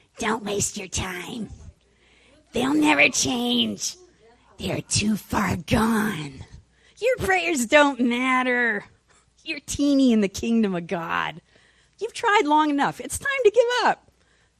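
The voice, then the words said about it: Devil character voice. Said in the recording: “do my devil voice”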